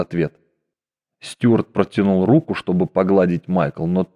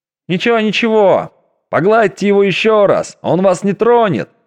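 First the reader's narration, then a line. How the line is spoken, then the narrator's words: Delighted crowd shouting. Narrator (Russian): кричали восхищенные пассажиры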